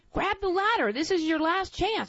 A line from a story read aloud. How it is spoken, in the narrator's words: we hollered at him